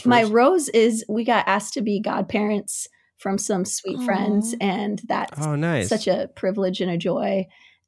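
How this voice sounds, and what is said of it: Hoarse, strained voice. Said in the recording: “I lost my voice yesterday”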